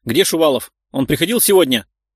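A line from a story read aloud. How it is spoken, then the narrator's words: Barked, angry boss. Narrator (Russian): рявкнул на Валентину директор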